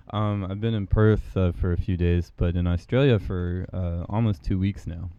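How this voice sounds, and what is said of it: American accent. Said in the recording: “resident American ... I'm from America. I have an exotic accent.”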